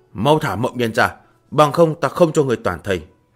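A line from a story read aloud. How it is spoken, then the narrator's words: Threatening shout. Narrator (Vietnamese): Huyền Xuất quát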